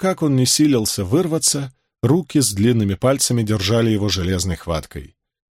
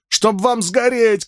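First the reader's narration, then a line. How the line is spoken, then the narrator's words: Shouting. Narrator (Russian): кричал он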